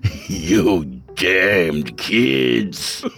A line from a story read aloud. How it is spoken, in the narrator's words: Jason croaked in an eerie imitation of the old man